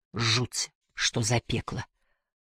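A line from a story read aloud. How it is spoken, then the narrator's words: Mutter. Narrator (Russian): пробормотал он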